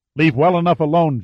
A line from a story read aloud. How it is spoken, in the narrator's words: Jarvis snapped